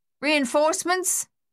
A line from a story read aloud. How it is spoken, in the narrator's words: Luther yelled across the noise of the gunfire